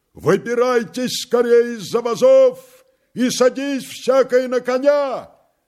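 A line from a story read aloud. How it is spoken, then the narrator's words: Loud booming shout. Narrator (Russian): Тарас вскрикнул зычно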